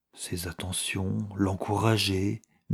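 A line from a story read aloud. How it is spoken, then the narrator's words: Bewildered murmur. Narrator (French): murmura Lucie, comme désorientée par ces paroles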